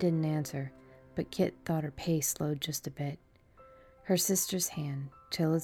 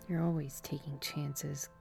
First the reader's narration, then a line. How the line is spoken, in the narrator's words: Kit muttered